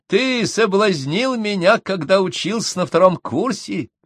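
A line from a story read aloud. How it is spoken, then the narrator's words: Said, then ringing laughter. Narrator (Russian): сказала Мария Семеновна и, звонко расхохотавшись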